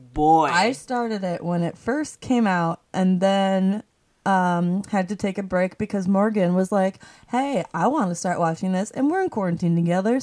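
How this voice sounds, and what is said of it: Put-on Southern accent. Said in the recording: “I don't know why I'm talking about the Southern accent.”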